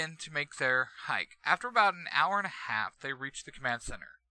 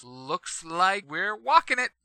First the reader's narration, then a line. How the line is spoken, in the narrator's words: Zack says with a small chuckle